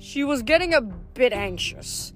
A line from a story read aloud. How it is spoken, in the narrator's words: Paul said dryly